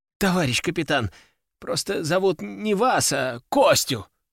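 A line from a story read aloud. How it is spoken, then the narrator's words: Exclaimed. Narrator (Russian): воскликнул он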